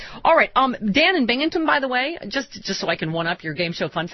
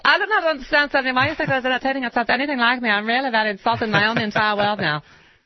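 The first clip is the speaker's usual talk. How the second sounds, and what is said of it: Arianna Huffington accent impression. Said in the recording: “Mariana Huffington says ... Don't you think she could lose a little bit of the accent? ... cut it out with that accent”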